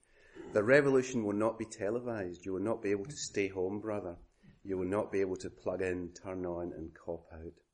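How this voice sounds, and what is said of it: Speaker's own Scottish accent. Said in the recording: “I can say that in my own accent because Gil Scott-Heron's father actually played for the Glasgow Celtic”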